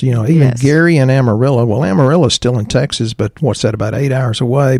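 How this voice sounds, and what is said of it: East Texas accent. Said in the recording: “East Texas accent.”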